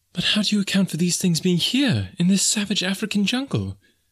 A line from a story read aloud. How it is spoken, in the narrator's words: exclaimed the girl